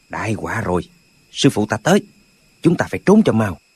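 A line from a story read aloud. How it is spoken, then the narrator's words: Soft voice. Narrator (Vietnamese): hắn nói khẽ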